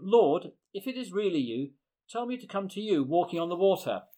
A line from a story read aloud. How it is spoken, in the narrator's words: Peter called out to him